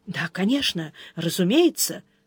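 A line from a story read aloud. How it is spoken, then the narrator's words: Muttered. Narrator (Russian): пробормотал канцлер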